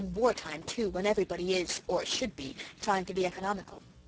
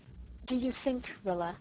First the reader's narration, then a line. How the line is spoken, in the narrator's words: Mother said quietly, far too quietly